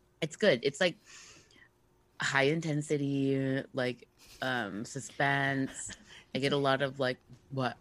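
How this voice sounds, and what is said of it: Super raspy voice. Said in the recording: “my voice sounds like. You know, like super raspy because I woke up from a nap”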